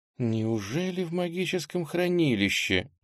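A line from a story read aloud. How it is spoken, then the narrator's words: Quiet question to oneself. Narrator (Russian): негромко спросила себя вслух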